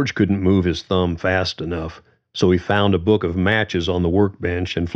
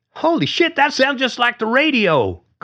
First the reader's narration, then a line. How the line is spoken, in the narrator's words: Carly nearly yelled